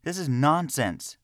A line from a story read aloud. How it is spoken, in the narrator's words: yelled